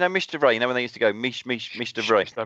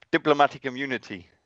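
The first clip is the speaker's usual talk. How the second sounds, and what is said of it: Put-on South African accent. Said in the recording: “Did you have to do it in a South African accent? ... used to put on a South African accent. ... I reckon that might be your best one.”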